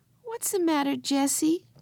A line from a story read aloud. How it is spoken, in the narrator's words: called Benny in a sleepy voice